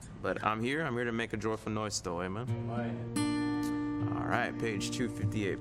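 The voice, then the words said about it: Voice worn from overuse. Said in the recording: “My voice is not 100% tonight ... I'm using my voice all day. You got to enunciate all day.”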